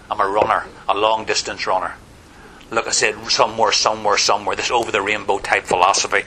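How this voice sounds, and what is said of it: Irish accent. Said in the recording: “I'm standing in America with an Irish accent.”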